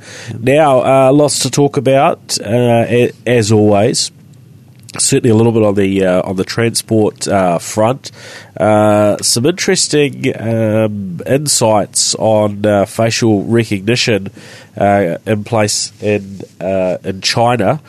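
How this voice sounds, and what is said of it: Congested, blocked-up nasal voice. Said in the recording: “excuse my voice today, I'm a bit blocked up with a cold.”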